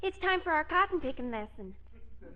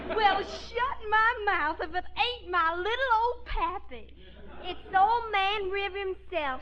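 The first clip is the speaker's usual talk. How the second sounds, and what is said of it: Heavy put-on Southern accent. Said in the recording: “Eddie insists that we talk with the Southern accent all the time. ... let's all give him that Southern accent as heavy as we can.”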